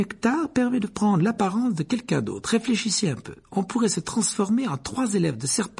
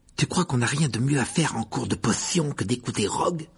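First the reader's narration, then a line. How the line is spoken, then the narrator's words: Grumbling. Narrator (French): grommela Ron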